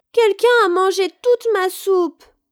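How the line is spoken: Crying baby bear. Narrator (French): s'écria bébé ours en pleurant

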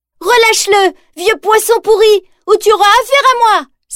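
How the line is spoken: Exclaimed. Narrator (French): s'exclame Jeanne

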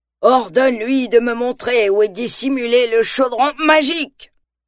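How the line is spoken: Terrifying dark lord demanding. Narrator (French): exige le seigneur des ténèbres d'une voix terrifiante

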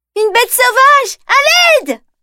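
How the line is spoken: Screamed. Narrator (French): hurle-t-elle

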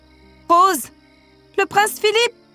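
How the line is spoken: Exclamation. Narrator (French): s'écria Flora

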